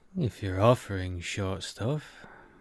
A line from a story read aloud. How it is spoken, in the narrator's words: Kiva said, his voice low